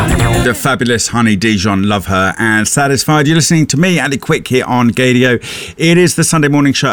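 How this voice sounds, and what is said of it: Usual voice. Nothing is said of it.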